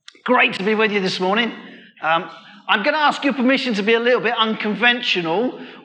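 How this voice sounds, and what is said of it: Southeast London English accent. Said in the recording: “my voice sounds nothing like anyone from Stoke-on-Trent. I'm from southeast London originally.”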